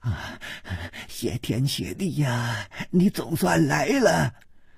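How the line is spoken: Hurried, panting. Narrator (Chinese): 他就匆匆地赶过来，喘息着说

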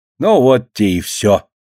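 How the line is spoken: Plain. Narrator (Russian): говорит Лина

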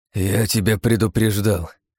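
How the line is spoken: Hoarse voice. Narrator (Russian): хрипло проговорил

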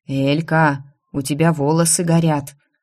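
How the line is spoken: Calm. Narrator (Russian): спокойно сообщила мне Инесса

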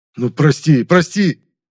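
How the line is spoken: Pleading. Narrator (Russian): взмолился Егорка

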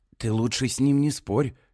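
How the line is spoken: Hoarse advice. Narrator (Russian): хрипло советует Кинга

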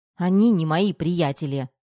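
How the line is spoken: Snapped. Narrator (Russian): огрызнулась Тома

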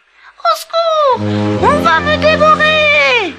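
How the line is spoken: Screaming. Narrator (French): hurla Pinocchio

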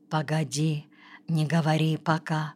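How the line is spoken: Whisper. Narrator (Russian): Отто Квангель шепнул

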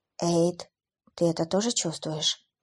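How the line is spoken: Whispered question. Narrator (Russian): шепотом спросила Клэр

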